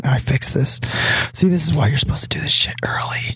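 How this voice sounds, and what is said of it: Whispering. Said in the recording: “let me whisper ... ASMR.”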